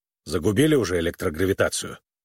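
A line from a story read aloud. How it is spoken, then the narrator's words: Grumbling. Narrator (Russian): он проворчал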